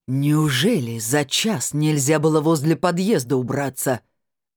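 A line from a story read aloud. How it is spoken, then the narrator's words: Woman bellowing full-lunged. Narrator (Russian): На всю силу своих легких гаркнула женщина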